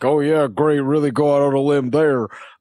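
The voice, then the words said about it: Sarcastic impression of audience members. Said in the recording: “that's a really good impression ... That's what they sound like in my head”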